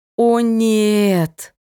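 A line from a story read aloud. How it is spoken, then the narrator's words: Moaning. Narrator (Russian): Застонала я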